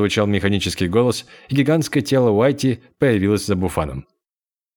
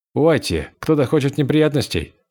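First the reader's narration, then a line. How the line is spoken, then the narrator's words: Calm. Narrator (Russian): сказал он спокойно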